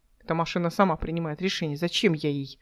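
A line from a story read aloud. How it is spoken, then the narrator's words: Muttering. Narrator (Russian): пробормотала Эл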